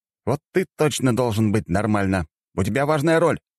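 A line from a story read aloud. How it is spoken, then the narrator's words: Sharp shout. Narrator (Russian): прикрикнул на него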